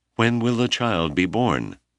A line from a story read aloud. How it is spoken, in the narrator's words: the distraught man begged